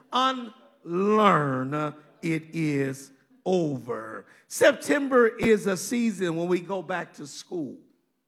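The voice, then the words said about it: Country Kansas accent. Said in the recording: “I'm from Kansas ... my country accent gets in the way”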